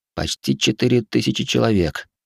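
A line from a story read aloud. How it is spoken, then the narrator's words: Mutter. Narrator (Russian): пробормотал я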